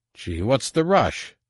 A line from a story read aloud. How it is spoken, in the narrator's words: Stalgis said dryly